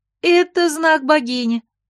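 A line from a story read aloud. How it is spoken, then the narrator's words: Happy, smiling young woman. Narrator (Russian): радостно улыбнулась девушка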